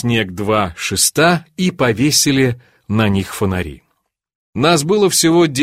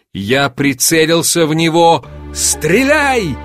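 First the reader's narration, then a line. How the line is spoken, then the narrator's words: Shouting. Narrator (Russian): крикнул Григорий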